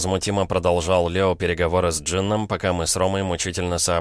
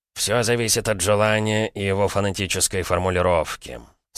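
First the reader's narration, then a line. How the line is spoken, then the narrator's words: Bored voice. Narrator (Russian): скучным голосом ответил Джин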